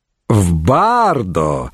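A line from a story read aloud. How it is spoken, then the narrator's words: Mocking. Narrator (Russian): насмешливо заметил Урбан Горн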